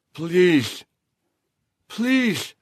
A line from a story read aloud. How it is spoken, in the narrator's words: She slurred her speech because of drugs and alcohol, her voice barely audible